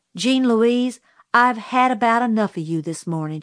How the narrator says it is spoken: she said

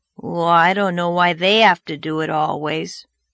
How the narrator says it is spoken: grumbled Davy

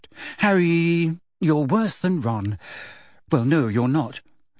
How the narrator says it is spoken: she sighed

